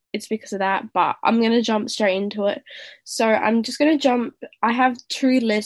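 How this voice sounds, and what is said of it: Nasal, congested voice. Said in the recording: “I sound really weird... I am having really bad hay fever at the moment, so if I sound really nasally”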